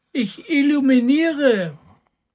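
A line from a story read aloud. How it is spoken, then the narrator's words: Small cat calling down. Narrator (German): rief die kleine Katze herunter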